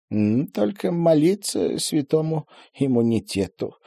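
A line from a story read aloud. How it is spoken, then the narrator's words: Sad joke. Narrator (Russian): грустно пошутил Вениамин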